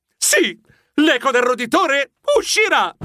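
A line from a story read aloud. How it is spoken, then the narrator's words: Proud shout. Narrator (Italian): gridai fiero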